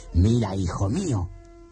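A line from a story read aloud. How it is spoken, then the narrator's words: Grave tone. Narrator (Spanish): dijo Abanazar en tono grave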